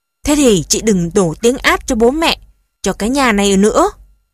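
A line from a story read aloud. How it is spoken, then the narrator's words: Hot-tempered shouting. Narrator (Vietnamese): Chị Hồng nóng nảy gào lên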